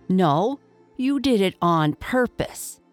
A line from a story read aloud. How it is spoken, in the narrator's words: said Seal angrily